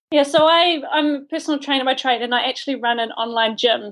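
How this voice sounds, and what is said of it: New Zealand accent. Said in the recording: “someone from New Zealand ... my accent”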